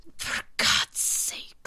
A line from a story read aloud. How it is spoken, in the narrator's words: mutters desperately